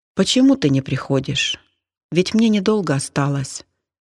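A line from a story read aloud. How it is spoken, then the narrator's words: Sad question. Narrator (Russian): печально спросила она мужа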